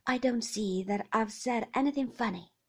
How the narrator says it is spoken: he said stiffly

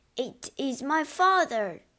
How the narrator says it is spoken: he cried

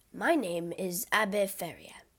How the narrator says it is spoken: he said

